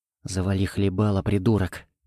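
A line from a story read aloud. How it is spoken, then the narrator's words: Harsh whisper in ear. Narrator (Russian): прошептал я на ухо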